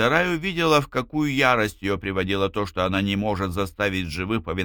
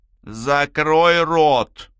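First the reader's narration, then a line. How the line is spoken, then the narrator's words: Icy, through gritted teeth. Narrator (Russian): процедила Минья ледяным тоном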